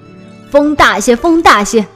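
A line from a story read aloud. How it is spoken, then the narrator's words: Loud, impatient. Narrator (Chinese): 大官嫌船慢，在船头大声说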